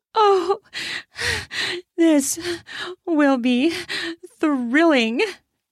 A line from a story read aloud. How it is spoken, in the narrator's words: She says, breathlessly between pants